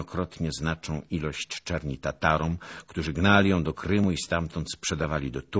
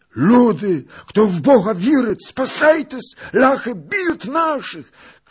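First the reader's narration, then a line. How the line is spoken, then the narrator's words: Loud group shout. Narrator (Polish): krzyknęli w niebo głos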